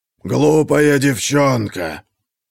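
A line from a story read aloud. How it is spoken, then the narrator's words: Feathered witch hissing. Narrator (Russian): Пернатая ведьма зашипела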